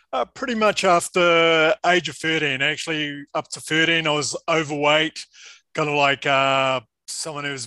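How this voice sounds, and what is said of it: New Zealand accent. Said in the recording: “judging by that accent,... I'm a New Zealander.”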